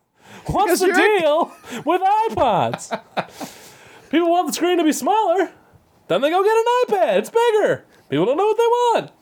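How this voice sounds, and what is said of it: Jerry Seinfeld impression. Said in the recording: “now maybe I can transition into a Seinfeld”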